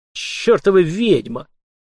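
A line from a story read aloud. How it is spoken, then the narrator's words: Through gritted teeth. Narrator (Russian): процедил посол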